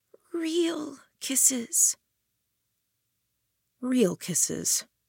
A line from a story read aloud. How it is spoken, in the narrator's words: Her lips still touched mine, moved against mine as she murmured